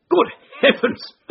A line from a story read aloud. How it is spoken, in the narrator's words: cried the Colonel, laughing